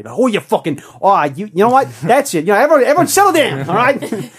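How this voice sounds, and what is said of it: Nasal, obnoxious put-on Boston accent. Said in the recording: “It's a very Boston accent. ... I think it's Boston. ... it's nasally, it's American, it's obnoxious”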